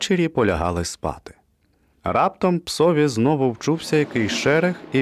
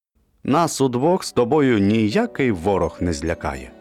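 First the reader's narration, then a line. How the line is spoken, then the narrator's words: Plain. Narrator (Ukrainian): сказав він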